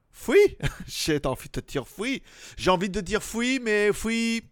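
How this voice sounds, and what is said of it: Put-on German accent. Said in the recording (French): “prendre un petit accent allemand ... l'accent allemand ... plutôt alsacien”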